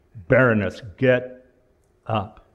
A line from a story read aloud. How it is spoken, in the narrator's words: the commissioner leans in harshly